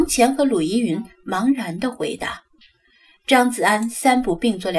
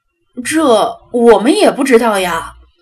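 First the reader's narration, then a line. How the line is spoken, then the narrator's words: Loud, from below. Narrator (Chinese): 楼下有顾客高声问道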